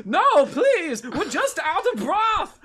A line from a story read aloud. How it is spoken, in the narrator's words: the chef yells